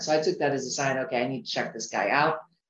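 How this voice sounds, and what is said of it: American accent. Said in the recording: “I live in Europe, although American, because you hear the accent”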